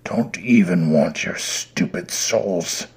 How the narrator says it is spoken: Satan muttered

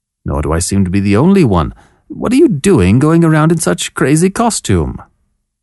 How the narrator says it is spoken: The bells on Lucchese's conical cap jingled as he chuckled

